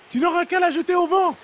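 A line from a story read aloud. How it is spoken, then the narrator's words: Shouted while flying off. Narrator (French): cria-t-elle en s'envolant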